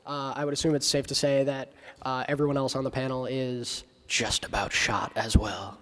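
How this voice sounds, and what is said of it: Hoarse, nearly lost voice. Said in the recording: “I have most definitely lost my voice... we were all gargling gravel beforehand. Good throaty.”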